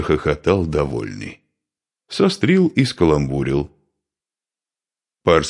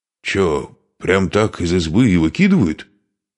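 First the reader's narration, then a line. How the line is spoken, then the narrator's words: Amazed exclamation. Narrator (Russian): изумленно воскликнул Понятко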